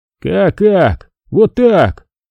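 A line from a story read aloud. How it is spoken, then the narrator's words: Grumbling. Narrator (Russian): проворчал Иван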